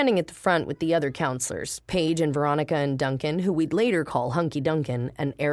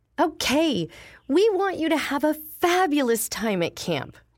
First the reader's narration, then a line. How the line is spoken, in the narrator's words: Jody cried